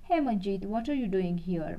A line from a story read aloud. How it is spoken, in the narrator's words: Rakesh called out